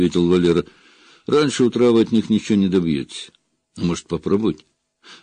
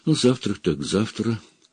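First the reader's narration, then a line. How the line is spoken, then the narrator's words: Muttering. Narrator (Russian): пробормотала горничная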